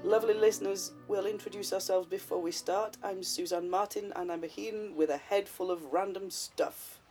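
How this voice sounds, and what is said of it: Congested voice from a cold. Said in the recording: “for those eagle-eared among you, that I have a cold ... Well, you have a cold.”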